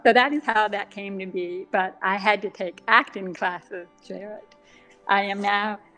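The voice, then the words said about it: Deaf accent. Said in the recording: “the deaf accent, where there are certain sounds that I don't hear very well, and so my voice is a little different”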